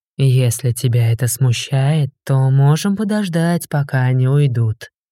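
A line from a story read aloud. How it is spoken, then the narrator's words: Seductive voice. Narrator (Russian): соблазнительным голосом предложил Арк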